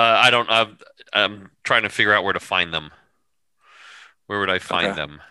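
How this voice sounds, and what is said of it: Usual voice. Nothing is said of it.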